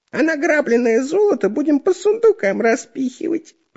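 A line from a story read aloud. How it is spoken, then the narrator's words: Squeaky. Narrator (Russian): пискнул Дырка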